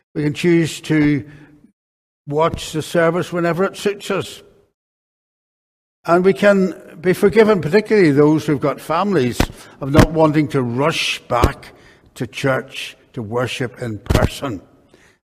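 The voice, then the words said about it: Crackly voice. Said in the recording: “my voice is crackly enough”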